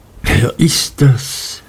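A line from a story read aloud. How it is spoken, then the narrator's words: Whisper. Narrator (German): flüsterte Martha mir zu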